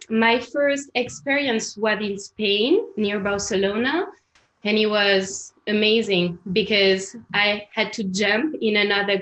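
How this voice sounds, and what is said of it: French accent. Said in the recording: “have my French accent... as you can hear, I'm French”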